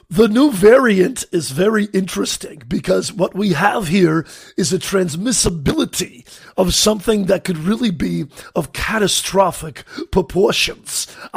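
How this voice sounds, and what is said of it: Imitates another person's voice. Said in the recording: “Was that a good impression or not? ... How do you like my Fauci impression?”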